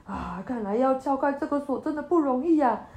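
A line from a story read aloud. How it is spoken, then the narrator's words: Sighing. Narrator (Chinese): 王叔叔……叹口气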